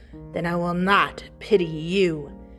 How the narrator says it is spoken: rasping reply

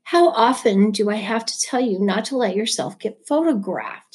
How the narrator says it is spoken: hissed

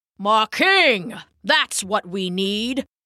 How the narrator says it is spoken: bellowed an old bullfrog

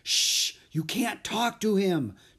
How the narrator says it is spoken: Jack whispered furiously

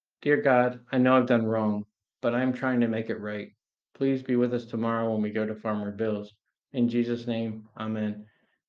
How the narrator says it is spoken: Heather softly said

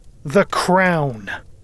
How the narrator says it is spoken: I said angrily

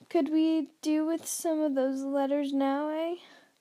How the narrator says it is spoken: he said cheerfully

